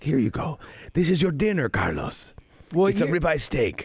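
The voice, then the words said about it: Put-on waiter character voice. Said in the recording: “I'm just doing it as my waiter voice ... your Kim impression”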